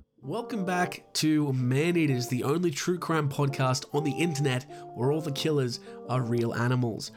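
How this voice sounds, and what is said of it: Sick voice, has a cold. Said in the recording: “I don't know if you can tell from my voice. I'm sick as a dick... I got the cold or a flu or something.”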